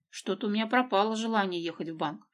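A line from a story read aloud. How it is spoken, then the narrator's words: Muttering. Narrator (Russian): пробормотал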